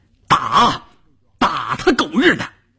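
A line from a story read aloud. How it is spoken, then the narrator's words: Roaring shout. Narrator (Chinese): 关山林的吼叫声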